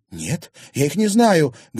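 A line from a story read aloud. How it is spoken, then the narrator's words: Passionate exclamation, young woman. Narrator (Russian): горячо воскликнула девушка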